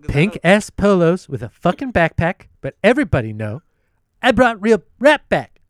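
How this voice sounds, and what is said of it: Imitates another person's voice. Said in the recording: “reading Kanye lyrics in Donald Trump's voice ... My terrible impression.”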